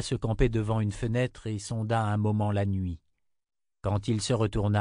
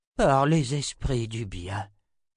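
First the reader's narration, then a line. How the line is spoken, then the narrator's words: Sighing. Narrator (French): soupira Zed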